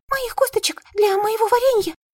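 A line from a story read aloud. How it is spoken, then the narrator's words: Squeak. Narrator (Russian): пискнула Бибиди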